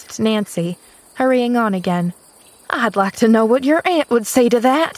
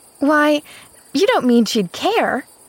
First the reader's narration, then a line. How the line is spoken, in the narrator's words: cried Pollyanna, plainly disturbed